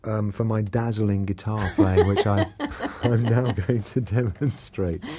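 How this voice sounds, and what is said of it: Usual voice. Nothing is said of it.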